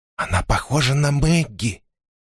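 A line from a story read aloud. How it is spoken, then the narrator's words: Girl's whisper. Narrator (Russian): шепнула девочка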